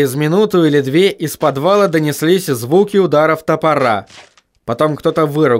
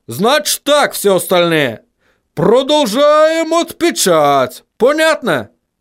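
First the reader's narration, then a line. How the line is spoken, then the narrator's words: Shouted. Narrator (Russian): крикнул он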